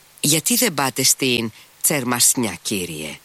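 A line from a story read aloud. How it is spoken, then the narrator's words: Said, smiling familiarly. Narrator (Greek): είπε ο Σμερνιακόφ και ξαφνικά σήκωσε επάνω του τα μικρά του μάτια και χαμογέλασε με οικειότητα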